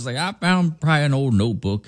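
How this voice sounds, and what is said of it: Put-on Southern voice. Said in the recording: “gave him a southern voice when he's definitely British”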